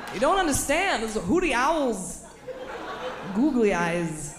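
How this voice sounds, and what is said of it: Christopher Walken impression. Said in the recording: “my Christopher Walken impression”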